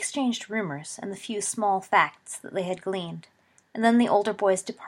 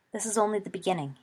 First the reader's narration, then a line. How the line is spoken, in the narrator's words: he said gravely